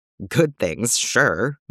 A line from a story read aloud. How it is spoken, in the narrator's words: Bucky chuckles